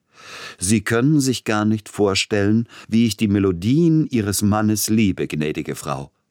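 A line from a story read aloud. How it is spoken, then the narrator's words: Very loud into silence. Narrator (German): Ganz laut sagte er in die plötzliche Stille hinein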